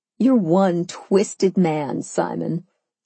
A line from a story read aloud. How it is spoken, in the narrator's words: I chuckled